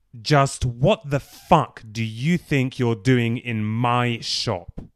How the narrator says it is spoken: Chris spat in a loud, clear, commanding voice of aggression and menace, quite unlike anything Bruce had ever heard from him before

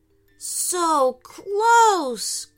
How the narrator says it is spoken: groaned Aiden

